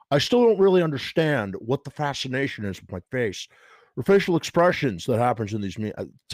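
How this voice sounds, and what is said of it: Imitates another person's voice. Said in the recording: “I wish I could do a better impression. I can't.”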